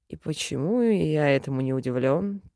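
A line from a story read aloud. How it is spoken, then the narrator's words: Mutter. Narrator (Russian): пробормотал эльф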